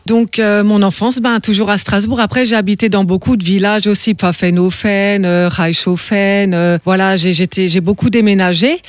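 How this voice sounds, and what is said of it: Slight Alsatian French accent. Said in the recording (French): “cet accent alsacien dont tu es fière ... je garde aussi un peu l'accent alsacien”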